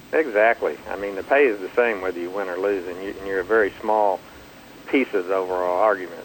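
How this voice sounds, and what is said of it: Folksy good-old-boy American accent. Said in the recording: “you can tell from my accent, I come across more as a good old boy”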